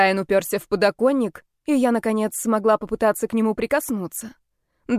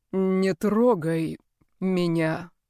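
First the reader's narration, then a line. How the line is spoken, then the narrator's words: Said through clenched teeth. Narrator (Russian): процедил он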